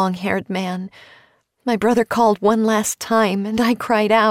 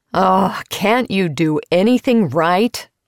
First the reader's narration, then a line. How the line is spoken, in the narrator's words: a voice bellowed